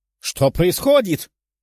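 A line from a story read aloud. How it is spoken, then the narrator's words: Shouting commander. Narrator (Russian): кричал командир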